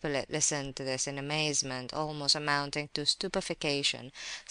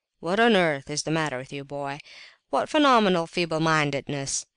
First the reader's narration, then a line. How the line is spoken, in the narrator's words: exclaimed Ferdishenko